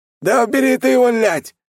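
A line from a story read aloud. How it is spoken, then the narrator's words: Squealing. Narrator (Russian): Продолжил визжать артефакт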